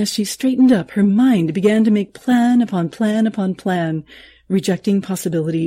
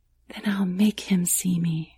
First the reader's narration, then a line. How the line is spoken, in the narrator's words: she whispered back